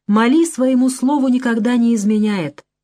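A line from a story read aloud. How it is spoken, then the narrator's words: Calm objection, old man. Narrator (Russian): спокойно возразил старик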